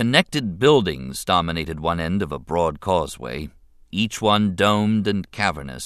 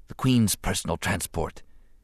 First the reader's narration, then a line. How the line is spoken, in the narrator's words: he whispered